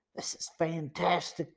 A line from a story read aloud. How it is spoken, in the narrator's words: Joe whispered